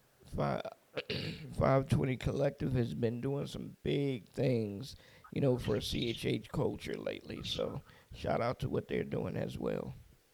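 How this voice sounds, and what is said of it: Strained, hoarse voice. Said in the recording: “I don't know if I'm losing my voice today or what.”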